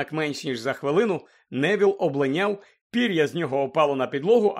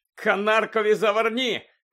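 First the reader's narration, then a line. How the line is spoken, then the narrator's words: Shouted to crowd. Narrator (Ukrainian): крикнув Фред до захопленої юрби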